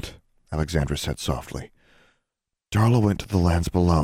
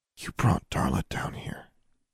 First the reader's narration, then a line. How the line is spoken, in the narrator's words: Alexandra murmured